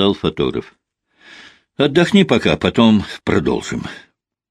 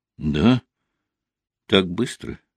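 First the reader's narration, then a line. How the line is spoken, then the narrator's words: Calm young woman's voice. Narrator (Russian): уже спокойным тоном произнесла девушка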